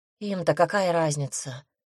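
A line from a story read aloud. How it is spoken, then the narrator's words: Sighing. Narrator (Russian): вздохнул я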